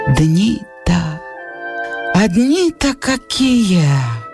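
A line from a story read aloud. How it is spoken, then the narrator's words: Sighing, weak, heartfelt old man. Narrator (Russian): Со вздохом, слабым, задушевным голосом сказал старик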